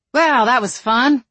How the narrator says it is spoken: Donna said dryly

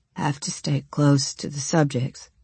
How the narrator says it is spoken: he muttered

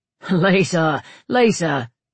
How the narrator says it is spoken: he laughed

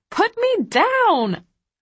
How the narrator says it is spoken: I squeal

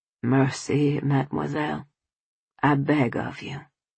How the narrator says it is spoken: added, almost timidly

